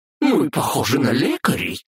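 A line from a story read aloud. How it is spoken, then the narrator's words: Indignant. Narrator (Russian): возмутилась Бранхель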